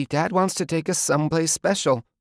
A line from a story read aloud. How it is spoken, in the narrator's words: she said, her voice wavering